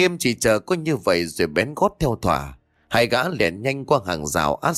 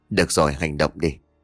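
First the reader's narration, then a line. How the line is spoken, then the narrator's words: Whisper. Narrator (Vietnamese): Thỏ thì thầm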